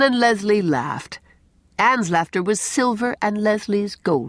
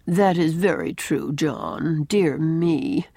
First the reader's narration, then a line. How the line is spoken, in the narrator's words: she at once remarks in that drab, lifeless little voice of hers